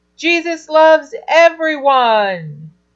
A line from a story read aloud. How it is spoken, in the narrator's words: all the kids shouted back